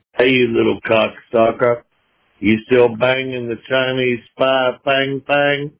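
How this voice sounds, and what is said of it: Fake Southern Georgia accent, unconvincing. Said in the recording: “It sounds to me like a fake Southern accent. They're trying to do like a Georgia accent, maybe, but it's not quite right.”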